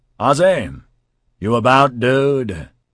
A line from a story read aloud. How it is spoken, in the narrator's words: he called out